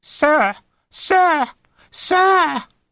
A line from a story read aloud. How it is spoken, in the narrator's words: the boy screeched